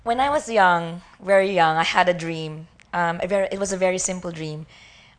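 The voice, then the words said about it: Strained, worn-out voice. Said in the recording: “sorry for my voice. I was enjoying Disneyland too much yesterday.”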